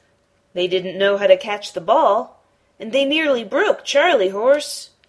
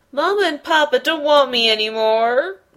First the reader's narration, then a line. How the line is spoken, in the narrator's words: he sobbed